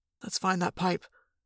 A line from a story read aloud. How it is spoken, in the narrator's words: Jake whispered